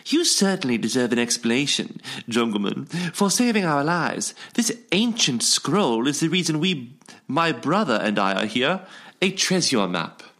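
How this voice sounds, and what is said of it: Bad put-on British accent. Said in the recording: “That was a bad British accent.”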